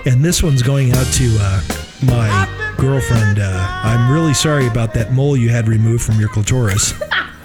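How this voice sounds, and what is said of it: Smooth easy-listening radio DJ voice. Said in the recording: “Why do you sound like an easy listening station right now?”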